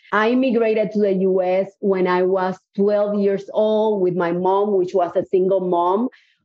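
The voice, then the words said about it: Cuban Spanish accent in English. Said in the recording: “I have an accent. I'm definitely not from Houston, Texas. I actually was born in Cuba.”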